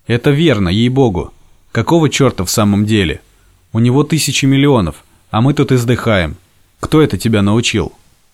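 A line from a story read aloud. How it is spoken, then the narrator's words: Hushed exclamation. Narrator (Russian): вполголоса воскликнул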